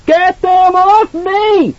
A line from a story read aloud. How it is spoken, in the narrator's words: Danny screamed